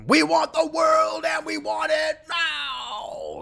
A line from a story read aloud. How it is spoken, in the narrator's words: used to scream